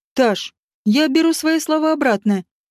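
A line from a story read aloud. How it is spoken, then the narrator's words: Speaking through laughter. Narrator (Russian): сквозь смех заявил он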